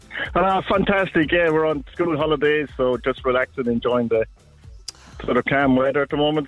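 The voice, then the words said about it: Irish accent. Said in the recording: “you know I love an Irish accent.”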